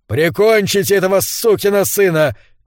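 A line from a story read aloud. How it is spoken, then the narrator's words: Shouted command. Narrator (Russian): крикнул капитан команде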